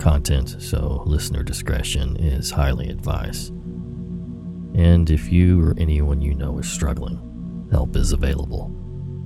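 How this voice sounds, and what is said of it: Slightly off, strained voice. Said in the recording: “if you can't tell, my voice is a little off. I didn't have one yesterday”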